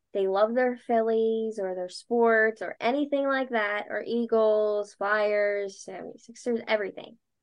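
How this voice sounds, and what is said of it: Delco Philadelphia-area accent. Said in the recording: “I have definitely got a Delco accent, especially now... that was so Delco”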